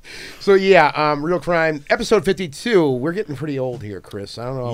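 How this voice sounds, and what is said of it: Hoarse, worn-out voice. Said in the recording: “My voice is shot again from being away all weekend.”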